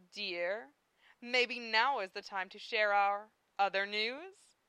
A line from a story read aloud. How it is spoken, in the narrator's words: Zelos purred